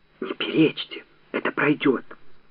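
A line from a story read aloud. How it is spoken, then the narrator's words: Flustered whisper. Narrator (Russian): Растерявшись, шепнул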